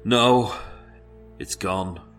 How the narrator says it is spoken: As with a deep sigh of defeat, he said

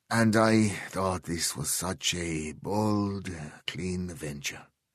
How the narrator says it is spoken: he said, his voice bitter

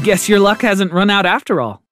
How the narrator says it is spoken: said, letting out a big laugh

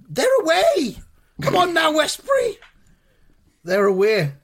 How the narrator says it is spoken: Lampard's in the crowd there, shouting

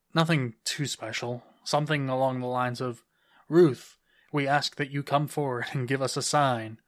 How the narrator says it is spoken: Mark said with a bit of a forced laugh

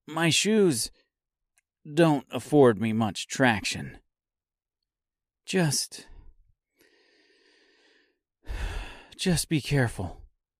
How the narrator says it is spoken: sighed Dorothy

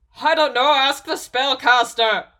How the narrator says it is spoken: Shane bellowed

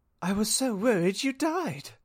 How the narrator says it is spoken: moaned Vampire

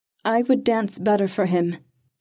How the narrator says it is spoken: said, making her voice clear and strong

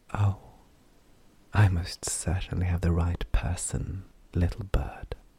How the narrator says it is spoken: she whispered

